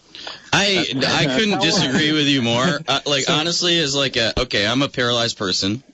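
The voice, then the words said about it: Speaking too loudly. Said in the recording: “I'm talking too loudly.”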